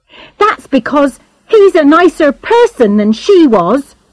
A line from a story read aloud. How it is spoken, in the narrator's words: said Charlotte hotly